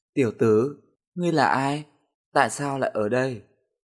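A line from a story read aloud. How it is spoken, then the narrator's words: Smiling question. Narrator (Vietnamese): mỉm cười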